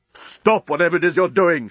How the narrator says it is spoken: shouted Leovinus

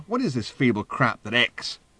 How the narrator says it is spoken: any of the editors finally staggered in from lunch, they would exclaim

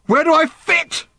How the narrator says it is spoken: screamed Random suddenly

